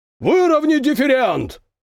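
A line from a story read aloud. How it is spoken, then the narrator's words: Roar over engine noise. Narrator (Russian): проревел старпом, перекрикивая гул двигателей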